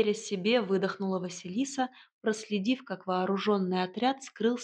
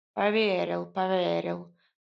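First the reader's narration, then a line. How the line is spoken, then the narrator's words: Grumbling. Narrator (Russian): проворчал кот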